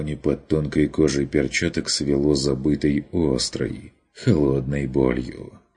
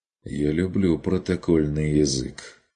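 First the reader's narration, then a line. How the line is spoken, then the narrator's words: Grim remark. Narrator (Russian): заметил Курт мрачно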